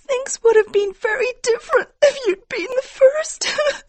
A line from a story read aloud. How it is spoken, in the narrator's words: she cried